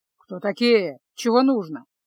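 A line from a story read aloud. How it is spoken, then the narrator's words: Gruff grumble. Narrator (Russian): пробурчал он при виде незнакомцев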